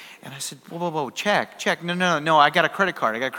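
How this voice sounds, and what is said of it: Usual voice. Nothing is said of it.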